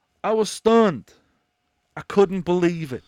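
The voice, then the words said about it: Imitates another person's voice. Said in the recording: “That's my impression of what Nick would sound like.”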